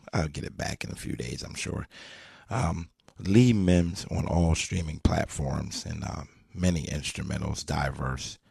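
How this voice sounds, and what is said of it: Hoarse, nearly lost voice. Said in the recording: “you can clearly hear my voice is pretty much gone”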